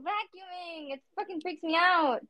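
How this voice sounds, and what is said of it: Screaming. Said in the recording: “Why are you screaming while you're vacuuming?”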